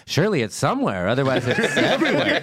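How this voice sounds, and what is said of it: Imitates another person's voice. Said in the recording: “my Ben Branfin impression.”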